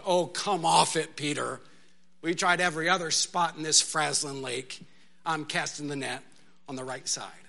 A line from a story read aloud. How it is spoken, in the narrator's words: Nathaniel or one of the others just groaned